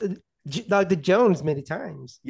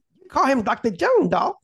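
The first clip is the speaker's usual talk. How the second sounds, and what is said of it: Imitates a movie kid character's voice. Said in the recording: “I'm trying to do the impression... that was pretty close... Very good, very good... that impression... That kid was the best thing in this movie.”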